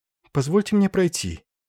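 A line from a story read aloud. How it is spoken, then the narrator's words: Frightened, timid. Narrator (Russian): Юрьева испуганно взглянула на него и робко сказала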